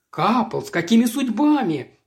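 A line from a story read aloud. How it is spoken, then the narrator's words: Exclaimed. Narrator (Russian): воскликнул он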